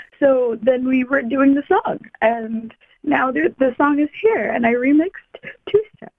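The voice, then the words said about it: Hoarse, strained voice. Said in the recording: “I've lost my voice because I've been screaming with my mom.”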